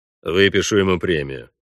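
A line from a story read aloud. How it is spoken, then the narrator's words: Grumbling. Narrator (Russian): проворчал Вольво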